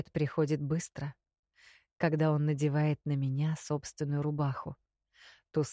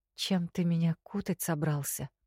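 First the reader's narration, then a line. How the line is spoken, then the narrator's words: Hoarse whisper. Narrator (Russian): Шепчу охрипшим горлом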